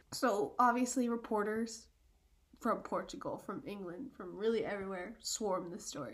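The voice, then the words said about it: Congested voice from a cold. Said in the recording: “This cold kind of gives me an accent.”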